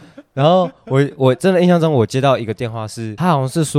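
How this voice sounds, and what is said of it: Usual voice. Nothing is said of it.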